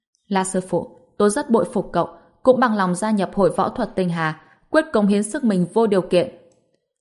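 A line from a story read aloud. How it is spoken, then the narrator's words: Serious, solemn. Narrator (Vietnamese): Hình Hoài cũng nghiêm nghị nói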